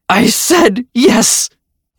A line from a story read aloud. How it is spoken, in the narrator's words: Ashley cried louder, a bit of defiance still inside of her